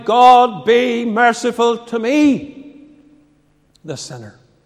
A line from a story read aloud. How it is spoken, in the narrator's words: The publican in the temple, he cried